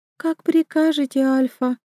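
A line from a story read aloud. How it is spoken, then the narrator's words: Timid answer. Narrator (Russian): робко отвечает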